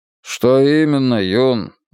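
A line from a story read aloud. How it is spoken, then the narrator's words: Sighing. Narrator (Russian): вздохнул Мунк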